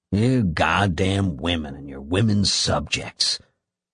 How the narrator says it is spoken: Sullenly, he said

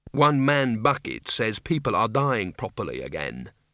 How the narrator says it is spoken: said Mrs

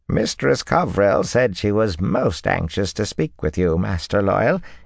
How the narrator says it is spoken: Ethan said in that creaky voice

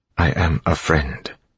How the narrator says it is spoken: he said quietly

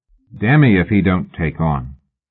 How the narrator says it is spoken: Fraser said coldly

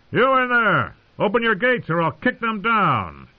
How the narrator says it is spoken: Jamie cupped his hands to shout

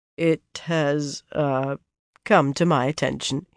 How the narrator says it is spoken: he said hesitantly

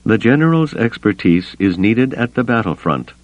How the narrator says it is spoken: Mon Mothma said evenly

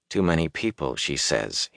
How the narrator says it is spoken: he muttered

